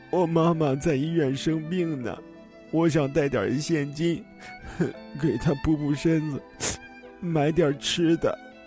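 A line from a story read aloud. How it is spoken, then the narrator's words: Tearful child's voice. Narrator (Chinese): 小女孩带着哭腔说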